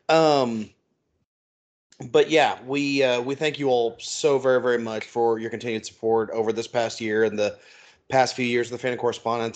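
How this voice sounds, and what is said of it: Hoarse, strained, fading voice. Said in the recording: “losing my voice, from coughing”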